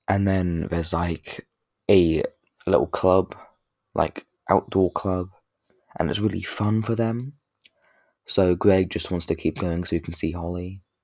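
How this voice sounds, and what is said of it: Croaky, hoarse voice. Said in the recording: “my voice is so damn croaky. I sound like flipping a frog.”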